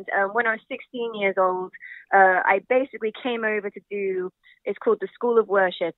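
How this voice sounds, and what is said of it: English accent blended with American. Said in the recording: “I'm from England ... my accent doesn't sound normal ... so it's a weird blend ... my English friends think I sound American, but American people think I sound English”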